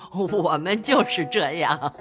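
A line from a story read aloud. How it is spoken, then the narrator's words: Smiling. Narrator (Chinese): 贾母笑向薛姨妈道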